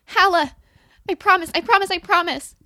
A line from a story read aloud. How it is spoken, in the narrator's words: I say frantically, like the words are a charm, a healing incantation